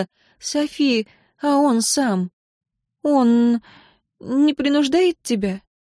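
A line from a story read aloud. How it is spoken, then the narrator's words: Sighing, very quiet question. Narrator (Russian): вздохнула Синтия и очень тихо спросила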